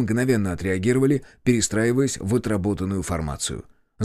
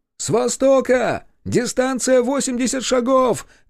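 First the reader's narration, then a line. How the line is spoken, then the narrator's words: Shout. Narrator (Russian): крикнул разведчик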